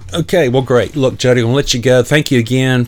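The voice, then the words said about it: Smooth radio DJ voice. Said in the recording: “radio voice ... I can hear it. It's in your voice. You got a good DJ voice.”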